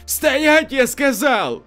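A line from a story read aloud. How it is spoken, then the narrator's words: Frightened shout. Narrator (Russian): Матрос испуганно выкрикнул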